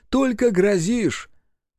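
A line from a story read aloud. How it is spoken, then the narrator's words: Laughing, giddy with happiness. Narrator (Russian): Трофим рассмеялся, шалый от счастья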